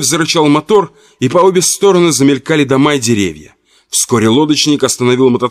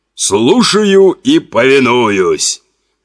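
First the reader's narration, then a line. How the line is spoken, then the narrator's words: Clowning voice. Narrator (Russian): дурашливым голосом сказал Харон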